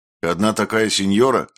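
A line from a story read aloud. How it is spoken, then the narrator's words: Snapping retort. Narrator (Russian): огрызнулся Диего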